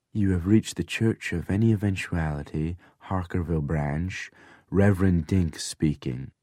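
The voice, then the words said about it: Smooth, suave phone voice. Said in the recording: “in my smoothest voice”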